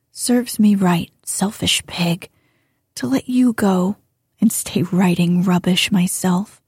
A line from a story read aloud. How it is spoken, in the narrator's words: muttered Jo